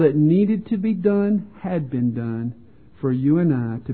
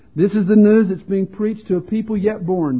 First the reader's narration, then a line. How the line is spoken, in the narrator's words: David says